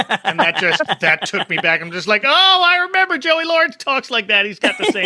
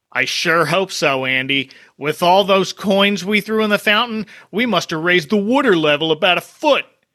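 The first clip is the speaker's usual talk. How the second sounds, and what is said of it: Philadelphia accent. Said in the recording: “in his little Philly accent, says... I gotta bring out my Philly accent.”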